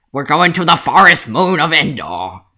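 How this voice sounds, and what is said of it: Imitates Admiral Akbar's voice. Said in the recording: “my best Admiral Akbar impression”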